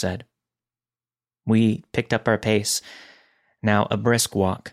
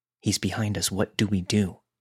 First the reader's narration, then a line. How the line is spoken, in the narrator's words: we whispered to each other